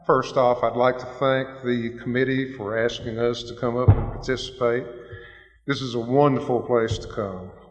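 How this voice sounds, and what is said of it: Hoarse voice. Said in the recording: “I'm kind of hoarse.”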